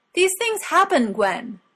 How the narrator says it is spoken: Morgana snapped

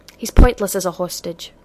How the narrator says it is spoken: Rodney snapped

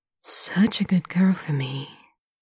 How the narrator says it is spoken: Lanchen murmurs

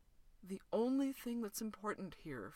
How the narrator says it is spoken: Fraser said softly

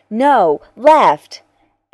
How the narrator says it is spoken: Teek shouts

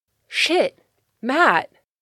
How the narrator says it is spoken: Bucky exclaimed

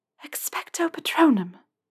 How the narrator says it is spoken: she whispered

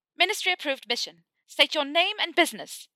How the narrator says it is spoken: she shouted

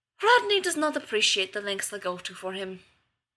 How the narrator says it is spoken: Zelenka sighed

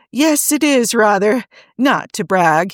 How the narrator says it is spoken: he added, and burst out laughing

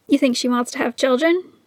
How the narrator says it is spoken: Neil asked

